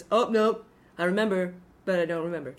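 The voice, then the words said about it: Impression of Donald Trump. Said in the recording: “I love that impression”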